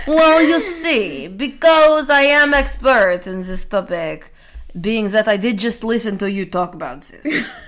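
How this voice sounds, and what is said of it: Put-on Russian accent. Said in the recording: “your expert opinion only in a Russian accent”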